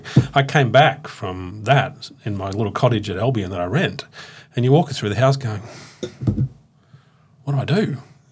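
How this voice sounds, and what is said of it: Teary, emotional voice. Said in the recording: “I'm getting teary.”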